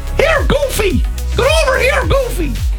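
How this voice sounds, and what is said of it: Mickey Mouse with Cork accent. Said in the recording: “Mickey Mouse. Like, could you do him with a Cork accent? ... That's good.”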